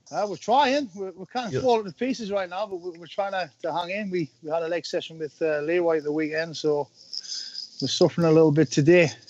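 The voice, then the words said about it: Geordie accent. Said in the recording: “That Geordi accent is music to my ears”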